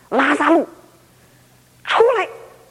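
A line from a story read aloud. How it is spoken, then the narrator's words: Loud commanding shout. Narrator (Chinese): 两眼放光，大声断喝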